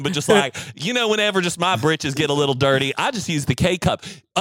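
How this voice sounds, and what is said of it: Put-on country accent. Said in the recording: “I'm doing, a country accent”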